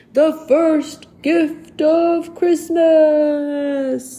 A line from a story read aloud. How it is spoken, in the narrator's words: called out